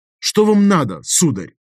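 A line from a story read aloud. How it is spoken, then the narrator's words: Very irritated question. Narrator (Russian): Поинтересовался весьма раздраженно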